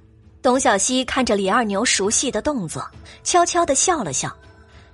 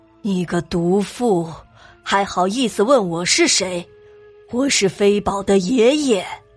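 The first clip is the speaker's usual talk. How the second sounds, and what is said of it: Deliberately lowered, muffled voice. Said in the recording (Chinese): “双手放在嘴边，做成喇叭状，故意压着自己的声音说”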